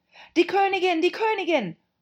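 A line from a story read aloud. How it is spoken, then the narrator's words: Frightened cry. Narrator (German): rief Fünf, der ängstlich über den Garten geblickt hatte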